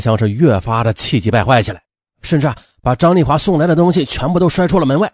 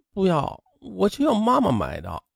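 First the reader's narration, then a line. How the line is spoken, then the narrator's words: Mumbling. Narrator (Chinese): 强强就嘟囔着说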